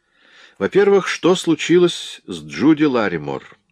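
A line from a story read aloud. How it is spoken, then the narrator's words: Plain. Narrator (Russian): спросил я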